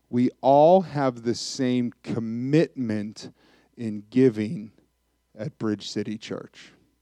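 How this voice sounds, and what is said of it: Speaks very slowly and deliberately. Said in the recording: “Why did I say that so slowly”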